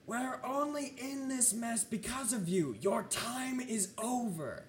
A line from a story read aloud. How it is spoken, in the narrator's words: you hear someone yelling